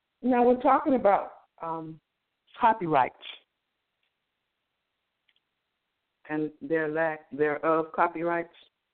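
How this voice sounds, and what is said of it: Slightly hoarse voice. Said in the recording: “my voice is a little hoarse today”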